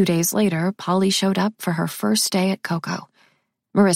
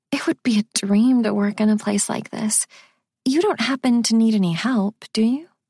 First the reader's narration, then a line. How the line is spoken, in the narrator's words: Polly had said almost wistfully